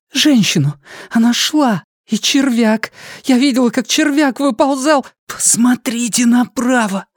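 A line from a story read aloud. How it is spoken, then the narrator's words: Wheezy rasp. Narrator (Russian): просипел Джейк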